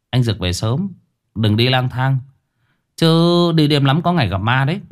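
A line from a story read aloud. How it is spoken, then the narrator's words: Cold thin laugh. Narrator (Vietnamese): chỉ cười nhạt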